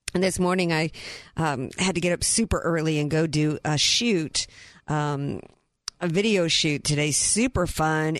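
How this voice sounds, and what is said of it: Hoarse, strained voice. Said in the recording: “I pretty much lost my voice ... losing my voice ... lots of all kinds of yelling and screaming”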